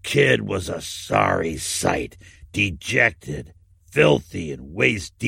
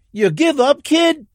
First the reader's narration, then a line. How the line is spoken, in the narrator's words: Paul shouted